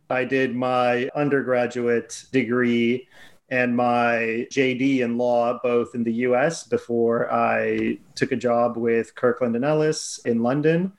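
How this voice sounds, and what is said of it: American accent. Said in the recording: “if my accent doesn't give it away, I'm from America”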